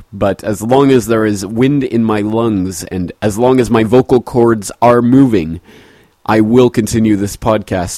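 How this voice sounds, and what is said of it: Altered, sick-sounding voice. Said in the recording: “my voice is a little bit different this week ... I've been battling a cold, which at one point left me almost unable to speak”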